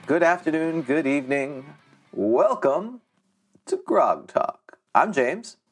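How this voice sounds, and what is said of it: Put-on radio announcer voice. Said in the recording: “you're working on your radio voice, it sounds like ... It sounds good.”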